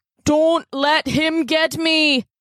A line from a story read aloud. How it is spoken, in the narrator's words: Connor cried